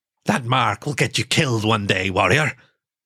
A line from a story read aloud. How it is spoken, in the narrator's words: the marten growled like a feral dog